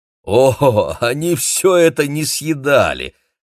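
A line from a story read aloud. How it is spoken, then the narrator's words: Laughing. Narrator (Russian): рассмеялся Демин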